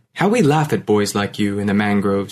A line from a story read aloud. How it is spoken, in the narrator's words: he said